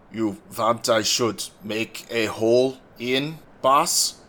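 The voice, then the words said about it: Bad put-on Russian accent. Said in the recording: “A horrific Russian accent.”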